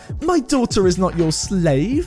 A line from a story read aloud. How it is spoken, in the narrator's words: whined